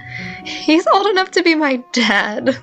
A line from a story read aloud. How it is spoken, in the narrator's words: Beth giggled